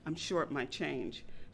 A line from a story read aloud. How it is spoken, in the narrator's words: quietly said